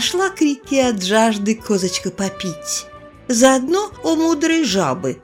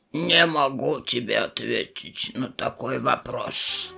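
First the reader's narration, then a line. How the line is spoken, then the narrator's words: Bear's falsetto growl. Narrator (Russian): Прорычал медведь фальцетом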